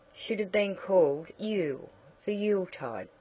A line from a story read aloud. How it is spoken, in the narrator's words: said Nat